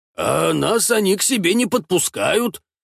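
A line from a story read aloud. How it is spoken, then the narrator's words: Offended mutter. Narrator (Russian): как-то обиженно бормочет Гондон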